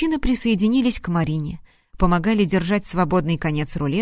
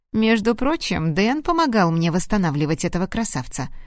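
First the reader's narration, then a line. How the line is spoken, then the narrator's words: Plain. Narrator (Russian): сказал Виктор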